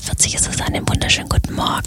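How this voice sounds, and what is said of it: Whispering. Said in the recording (German): “Warum flüsterst du so?”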